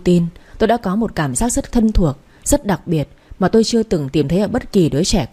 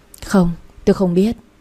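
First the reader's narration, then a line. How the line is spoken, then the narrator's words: Sighing reply. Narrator (Vietnamese): tôi thở dài đáp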